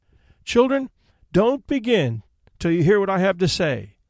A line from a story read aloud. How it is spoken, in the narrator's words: she cried